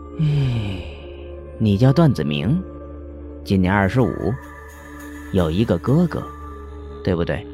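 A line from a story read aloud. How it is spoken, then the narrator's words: Calm, indifferent. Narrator (Chinese): 药宝山淡淡的说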